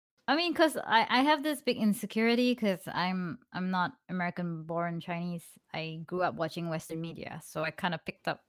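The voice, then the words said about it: Non-native English accent. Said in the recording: “my accent is not perfect like you guys”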